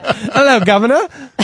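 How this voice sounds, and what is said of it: Put-on British accent. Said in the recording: “break out the British accent”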